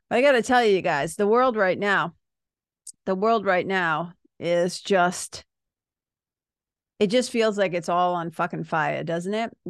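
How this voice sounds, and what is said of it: Somber, subdued voice. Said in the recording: “my voice is a little more somber or a little more dialed back than I normally am”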